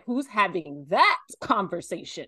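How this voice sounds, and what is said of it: Oprah Winfrey impression. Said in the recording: “in my Oprah voice”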